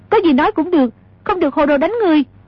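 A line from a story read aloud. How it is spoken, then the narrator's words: Hurried shout. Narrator (Vietnamese): A Kha vội la lên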